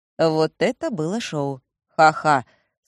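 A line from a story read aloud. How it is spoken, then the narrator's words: Dry reply. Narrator (Russian): сухо отвечает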